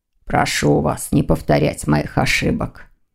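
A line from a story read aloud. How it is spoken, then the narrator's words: Quiet insistent priest. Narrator (Russian): тихо, но настойчиво отозвался священник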